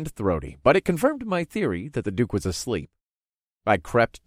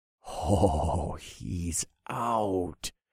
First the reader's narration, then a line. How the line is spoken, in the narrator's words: I whispered to myself